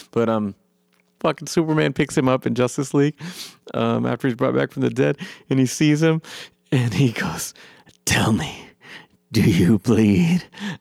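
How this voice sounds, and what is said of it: Worn-out, strained voice. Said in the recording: “I've been talking for a long time. My voice is kind of gone.”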